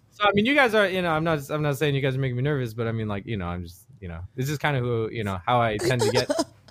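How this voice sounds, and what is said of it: Mid-Atlantic theater accent, slightly British. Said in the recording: “Like a British accent? ... It's like, it's like a theater accent a little bit too. ... Yeah, like Australian somehow. ... Mid-Atlantic is the theater accent, and so it's a manufactured accent”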